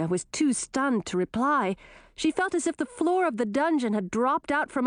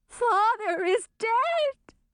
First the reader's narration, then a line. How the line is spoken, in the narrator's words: wailed Chartreuse